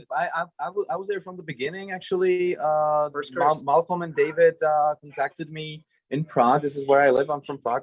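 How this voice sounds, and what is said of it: Slight foreign accent. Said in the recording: “Do you hear his accent? ... you hear that little accent. ... A little accent, yeah.”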